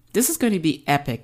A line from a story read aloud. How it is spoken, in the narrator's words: laughed